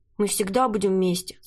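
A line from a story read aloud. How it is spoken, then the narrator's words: Plain question. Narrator (Russian): спросил Томми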